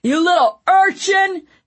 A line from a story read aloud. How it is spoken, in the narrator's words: Dunsworth bellowed